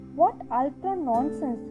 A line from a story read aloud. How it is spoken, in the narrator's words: said